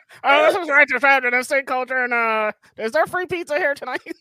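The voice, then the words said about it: High-pitched chipmunk-like imitated voice. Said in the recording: “that's what I sound like to you ... Instead, you just gave me fucking Alvin and the Chipmunks”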